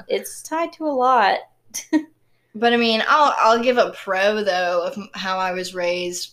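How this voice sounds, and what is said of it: Southern American accent. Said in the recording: “I recognize my southern accent just then”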